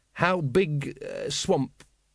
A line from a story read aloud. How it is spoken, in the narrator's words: he faltered